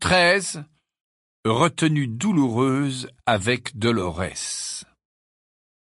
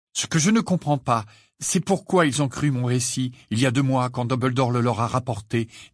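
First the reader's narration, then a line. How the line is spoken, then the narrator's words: Trembling voice. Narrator (French): dit Harry d'une voix tremblante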